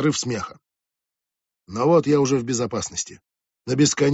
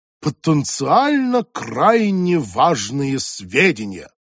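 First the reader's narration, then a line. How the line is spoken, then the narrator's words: Loud, meaningful, mock-official. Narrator (Russian): Джоанна многозначительно и громко, чтобы я непременно расслышал, произносит преувеличенно официальным тоном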